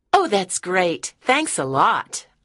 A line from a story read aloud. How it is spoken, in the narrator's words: I said happily